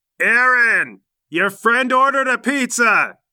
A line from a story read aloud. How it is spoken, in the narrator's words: She yells